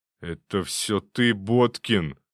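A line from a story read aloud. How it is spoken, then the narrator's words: Sudden angry hiss. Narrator (Russian): вдруг злобно прошипел Шуклин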